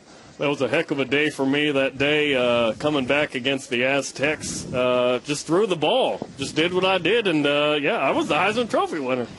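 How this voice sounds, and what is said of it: Imitates another person's voice. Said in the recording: “Ty Detmer impersonation ... He's pretty good at Ty Detmer, right? ... No, you're not. You don't have the accent that Ty has ... No, you did all right.”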